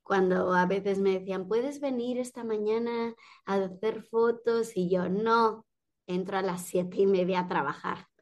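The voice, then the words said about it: Slight Mexican accent in Spanish. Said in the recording (Spanish): “te noto con un acento un poquito mexicano ... Asturiano ya te queda poco”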